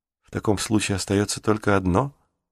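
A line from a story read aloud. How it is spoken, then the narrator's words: Whispered. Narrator (Russian): шепнул он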